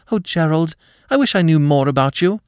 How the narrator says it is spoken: a wave of panic surged over her, so that she cried out before she could stop herself

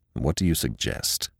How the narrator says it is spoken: said Jeffries coldly

